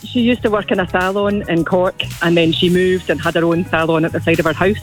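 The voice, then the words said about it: Non-Irish accent. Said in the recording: “That's not an Irish accent I'm hearing there, even though you've been here for, what, 25 years?”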